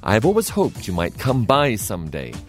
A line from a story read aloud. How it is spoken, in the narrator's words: the man said